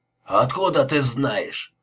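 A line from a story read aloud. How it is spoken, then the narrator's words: Growling. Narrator (Russian): рычал Лепски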